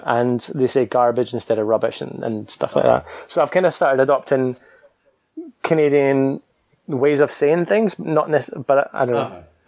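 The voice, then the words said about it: Scottish accent. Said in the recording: “I can't tell if my accent's changing, but I'm kind of hoping that it doesn't ... because I'm that Scottish guy. So I really hope I don't lose it.”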